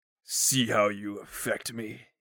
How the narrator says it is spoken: he growled

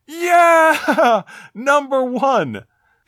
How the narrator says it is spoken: Shouting in a loud voice, a victorious Balrog

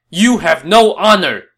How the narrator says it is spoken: Zhang Fei shouted back

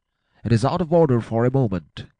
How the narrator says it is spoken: he cried

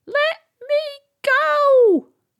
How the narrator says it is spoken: the box shouted

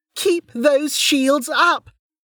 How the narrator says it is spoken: Lynn hollered

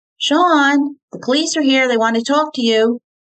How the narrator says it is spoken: Terry called out

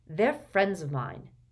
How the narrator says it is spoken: said Harry coldly

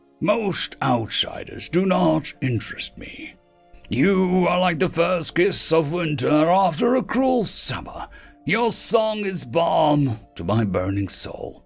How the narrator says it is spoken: the man rumbled

